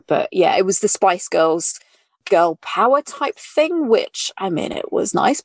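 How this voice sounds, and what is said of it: British accent. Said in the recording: “I'm British. I am British. ... I mean, from my accent.”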